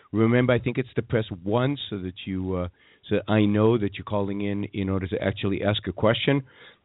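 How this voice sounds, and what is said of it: Weakened voice, under the weather. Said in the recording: “I'm under the weather ... My voice is only half functioning.”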